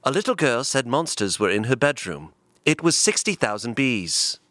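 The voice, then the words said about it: Put-on British accent. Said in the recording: “can you read it in a British accent for us? ... it's got to be British.”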